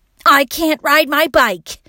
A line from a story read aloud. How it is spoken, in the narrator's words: Eli shouted angrily